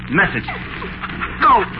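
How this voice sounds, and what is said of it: Hard, stern command. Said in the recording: “say in a hard voice”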